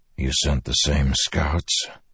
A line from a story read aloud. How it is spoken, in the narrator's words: he whispered